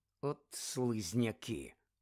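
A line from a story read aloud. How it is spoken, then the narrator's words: Muttering. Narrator (Ukrainian): пробурмотів Рон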